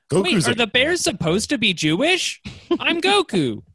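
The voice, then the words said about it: Cartoon character voice impression. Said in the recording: “my Goku impression ... Otherwise, it doesn't really sound like it.”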